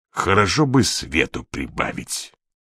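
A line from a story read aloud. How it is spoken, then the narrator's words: Grumble. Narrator (Russian): проворчал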